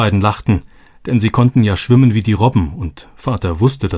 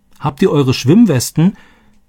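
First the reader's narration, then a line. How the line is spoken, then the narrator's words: Calling after them. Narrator (German): rief Roberto ihnen nach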